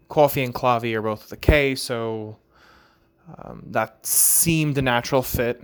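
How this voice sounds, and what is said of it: New York Long Island accent. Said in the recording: “You can kind of tell how I say the word is um, with the New York accent, Long Island, or that Long Island accent ... those words with that "aw" sound, the the New York uh, comes out to play”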